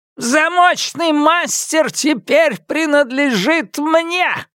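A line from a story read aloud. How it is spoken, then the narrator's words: Shouting. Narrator (Russian): крикнула Хирана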